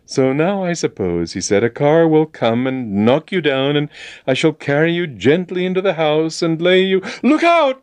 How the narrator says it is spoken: He cried

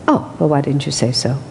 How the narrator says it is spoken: Master said

